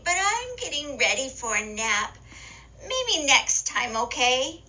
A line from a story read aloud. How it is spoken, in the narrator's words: said sleepily